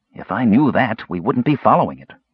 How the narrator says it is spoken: Raistlin snapped

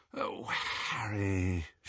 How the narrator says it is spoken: she said wearily

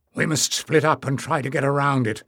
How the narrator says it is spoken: muttered Barda to Leaf and Jasmine

